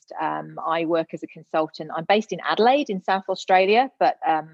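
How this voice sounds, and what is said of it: British English accent. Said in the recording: “as you can no doubt tell from my accent, I'm originally from the UK, born and bred Gloucester girl”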